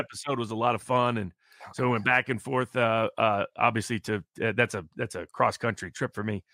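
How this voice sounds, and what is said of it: Dry, low-energy voice. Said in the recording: “energy level seems a little down... it's just my voice... my voice is a little bit dry”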